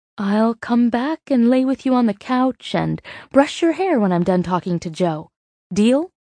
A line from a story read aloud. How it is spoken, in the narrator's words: Meg cooed